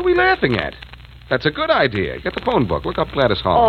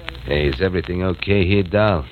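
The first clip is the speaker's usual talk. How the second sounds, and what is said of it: Imitates another man's voice. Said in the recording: “Who are you imitating now? ... Joe, the owner of the barn.”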